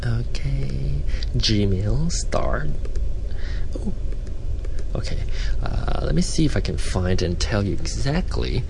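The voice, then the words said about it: Malaysian-accented English. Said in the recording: “combined with a Malaysian accent ... yes, my Malaysian accent ... Now it's me trying to sound more American”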